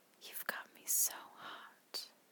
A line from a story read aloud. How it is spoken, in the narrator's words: I whispered in his ear